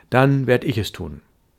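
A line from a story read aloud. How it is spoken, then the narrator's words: Plain. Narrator (German): sagte ich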